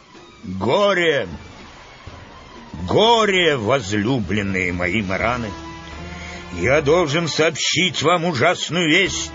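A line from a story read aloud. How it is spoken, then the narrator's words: Booming voice. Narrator (Russian): Урфин начал зычным голосом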